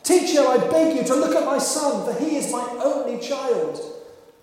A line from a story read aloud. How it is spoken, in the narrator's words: A man in the crowd answered and called out